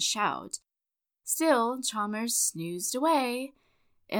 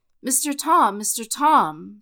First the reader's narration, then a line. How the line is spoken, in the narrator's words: cried out